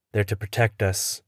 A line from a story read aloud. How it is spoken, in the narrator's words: mumble, hating myself as I say it